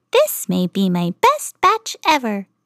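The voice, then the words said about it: Tiny high character voice. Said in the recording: “in her teeny tiny voice”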